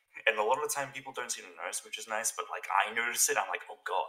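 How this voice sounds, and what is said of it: Mixed Australian and American accent. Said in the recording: “my accent is completely messed up now. It's like half Australian, half American. I will just randomly say like certain words with an American accent”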